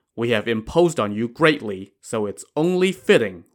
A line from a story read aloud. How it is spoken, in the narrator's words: Wu Song said